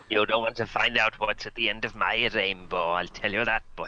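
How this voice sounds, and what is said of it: Welsh leprechaun character voice. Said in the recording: “A Welsh leprechaun ... He's very Welsh and very cruel ... that accent”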